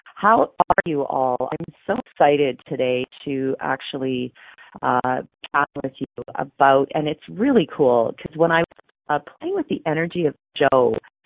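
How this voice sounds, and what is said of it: Hoarse, froggy voice. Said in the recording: “I have a frog in my throat”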